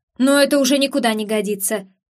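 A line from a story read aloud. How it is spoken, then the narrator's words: Growl. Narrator (Russian): прорычал Кермак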